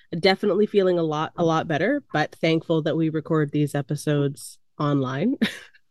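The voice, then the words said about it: Hoarse, congested voice. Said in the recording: “If I'm a little bit hoarse, I'm just recovering from COVID ... a little bit nasty sounding ... if I'm a little bit congested”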